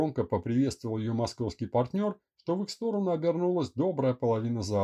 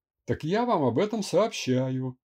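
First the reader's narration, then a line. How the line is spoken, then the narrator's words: Lecherous snort. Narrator (Russian): плотоядно хмыкнул партнер Льва Константиновича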